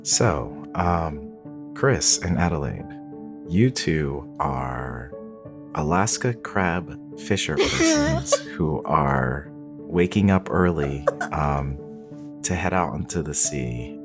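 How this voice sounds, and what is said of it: Smooth public-radio announcer voice. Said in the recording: “I'm putting on my NPR voice for this, obviously. ... I'm feeling the radio voice right now.”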